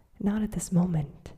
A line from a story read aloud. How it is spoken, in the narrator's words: he said